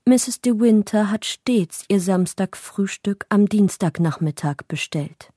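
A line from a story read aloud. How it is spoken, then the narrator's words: Plain. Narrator (German): sagte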